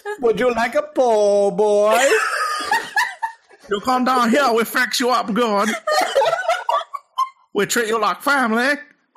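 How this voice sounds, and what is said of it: Put-on Cajun accent, robotic Dalek-like voice. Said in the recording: “you're able to combine a Dalek with a Cajun accent”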